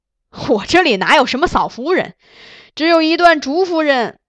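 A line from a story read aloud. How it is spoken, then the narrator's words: Hearty laughter. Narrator (Chinese): 崔白大笑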